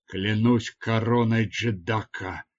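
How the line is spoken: Surprised mutter. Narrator (Russian): пробормотал он удивленно

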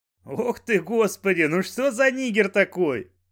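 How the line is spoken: Loud laughter. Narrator (Russian): расхохотался Банджо

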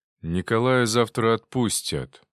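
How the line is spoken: Gloomy. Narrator (Russian): мрачно проговорил Кондрашов

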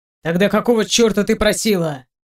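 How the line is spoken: Sharp bark. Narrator (Russian): Резко рявкаю

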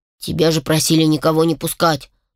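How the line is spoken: Indignant lowered voice, brother. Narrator (Russian): возмущенно понизил голос брат

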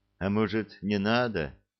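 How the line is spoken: Sad question. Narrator (Russian): грустно спросил Несвидов

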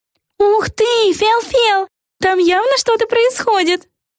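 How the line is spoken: Excited yell. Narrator (Russian): завопила Эгги Хуф

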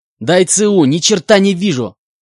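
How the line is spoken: Shout. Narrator (Russian): выкрикнул он

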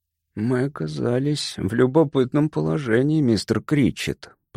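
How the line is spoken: Mutter. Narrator (Russian): пробормотал Пейн

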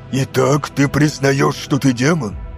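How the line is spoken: Hissed. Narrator (Russian): прошипел Кайсару

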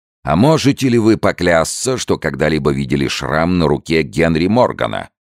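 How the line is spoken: Thunderous question. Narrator (Russian): начальник полиции громовым голосом спросил

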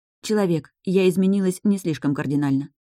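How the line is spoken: Sighing. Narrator (Russian): вздохнула Таша

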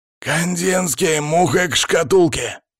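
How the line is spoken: Growl over headphones. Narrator (Russian): зарычал в наушниках Палыч

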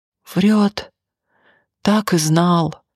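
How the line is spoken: Drunken wheeze. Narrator (Russian): нетрезво прохрипел Анатолий

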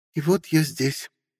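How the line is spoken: Sad voice. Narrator (Russian): грустно сказала Ольга

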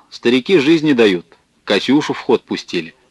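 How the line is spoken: Soldier, cheerful and loud. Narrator (Russian): Сидевший на соседней скамейке военный весело и громко сказал

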